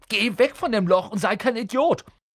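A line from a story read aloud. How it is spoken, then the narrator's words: Cry out. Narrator (German): schrie Ron auf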